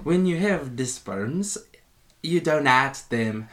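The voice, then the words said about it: Put-on accent imitating a character. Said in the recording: “Do his accent.”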